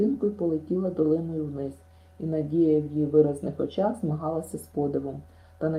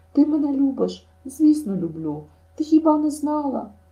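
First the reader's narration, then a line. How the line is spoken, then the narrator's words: Imploring exclamation. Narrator (Ukrainian): вигукнула, молитовно сплітаючи долоні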